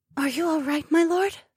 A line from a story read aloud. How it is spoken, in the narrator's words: She whispered